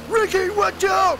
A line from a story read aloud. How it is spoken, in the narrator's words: shouts Tony